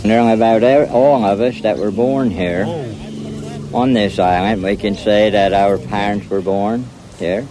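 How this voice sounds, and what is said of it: Thick Tangier Island accent. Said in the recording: “Tangier Island accent ... the closest accent here in America to the original colonial American accent ... it sounds like a complete other language ... You can barely understand what they're even saying”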